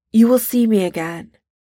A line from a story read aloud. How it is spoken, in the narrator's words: Steve blurts out